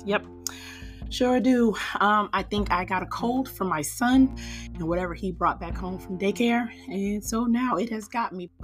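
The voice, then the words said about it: Hoarse, weird-sounding voice. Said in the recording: “I sound a little weird today, is because I have laryngitis.”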